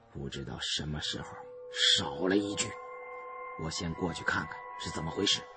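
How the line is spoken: Worried, low voice. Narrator (Chinese): 我担心阿香听到害怕，就低声对山瑞阳说

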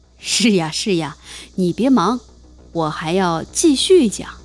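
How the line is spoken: Forced smile. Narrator (Chinese): 但他仍然勉强地笑了笑，说

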